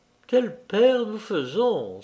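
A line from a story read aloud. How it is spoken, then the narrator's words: Pensive exclamation. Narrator (French): s'écria-t-elle, pensive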